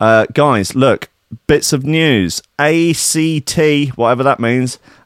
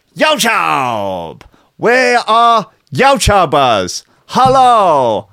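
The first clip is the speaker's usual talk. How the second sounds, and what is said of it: Put-on unidentifiable accent. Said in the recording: “I've no idea what accent that is.”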